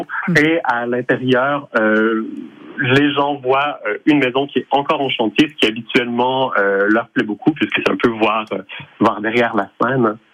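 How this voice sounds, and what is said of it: Slight Montreal French accent. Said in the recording (French): “avec votre petit accent, si par hasard, vous ne venez pas d'un petit peu plus loin ... je suis montréalais d'origine”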